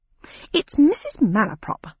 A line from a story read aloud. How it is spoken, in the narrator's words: said the Dodo in an affronted tone